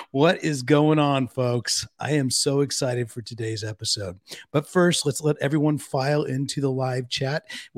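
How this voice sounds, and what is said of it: Unusually low, deep radio voice. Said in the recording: “I do have radio voice today... your voice is low. It is low today.”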